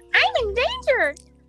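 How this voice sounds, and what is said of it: Imitation of a cartoon kid's voice. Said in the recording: “I can do the Simpsons kid pretty well”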